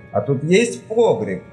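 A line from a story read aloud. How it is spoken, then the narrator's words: Plain. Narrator (Russian): спросил он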